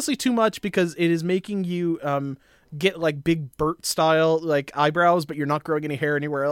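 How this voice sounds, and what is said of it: Usual voice. Nothing is said of it.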